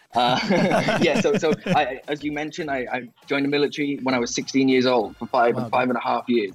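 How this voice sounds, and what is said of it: Welsh accent. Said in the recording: “where's the accent from, right? But I grew up in Wales in the UK.”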